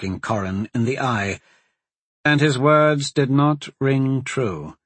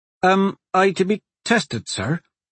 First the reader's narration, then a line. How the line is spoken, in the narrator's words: Corin asked anxiously